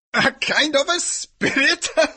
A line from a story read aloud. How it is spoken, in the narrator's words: laughed the priest